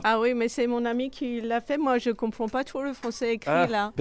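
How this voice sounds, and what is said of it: French with a slight foreign accent. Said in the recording (French): “Avec un petit accent”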